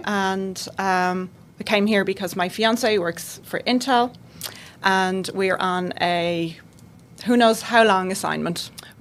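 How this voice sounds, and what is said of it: Slight Irish accent. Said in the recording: “You have an accent ... I have just a little bit of an accent. ... I'm from Ireland. ... from just outside Dublin, Ireland.”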